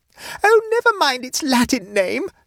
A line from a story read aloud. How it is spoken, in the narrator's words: screamed Mavis